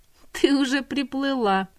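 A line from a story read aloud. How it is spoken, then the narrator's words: Harsh laugh. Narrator (Russian): Зинаб жестко рассмеялась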